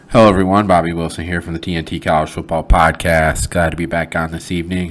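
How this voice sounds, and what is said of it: Slightly nasal, congested voice. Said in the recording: “if I sound a bit nasally ... for sinus allergies to kick in”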